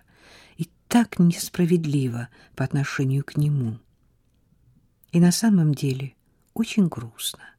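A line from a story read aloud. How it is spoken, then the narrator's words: Quiet. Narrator (Russian): тихо проговорила Сара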